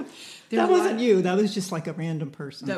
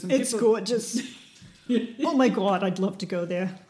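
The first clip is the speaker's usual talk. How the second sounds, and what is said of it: Put-on New York accent. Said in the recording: “a good New York accent, which you can do”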